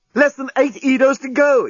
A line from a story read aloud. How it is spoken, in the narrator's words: exclaimed the journalist